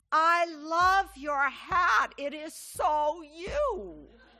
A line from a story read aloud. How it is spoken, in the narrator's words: a man standing in a doorway off to the side yelled out to me